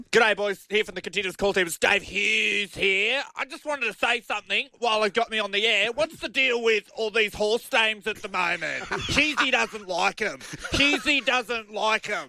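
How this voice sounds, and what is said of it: Imitates another person's voice. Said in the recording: “Dave Hughes impersonation ... that's very good ... Very distinct very voice.”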